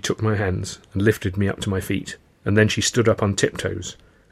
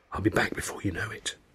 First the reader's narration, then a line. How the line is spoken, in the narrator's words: Tilly whispered